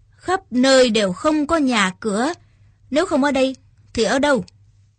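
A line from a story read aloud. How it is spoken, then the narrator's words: Deep gruff voice. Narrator (Vietnamese): Trác Thiên Hùng cất giọng ồm ồm mà nói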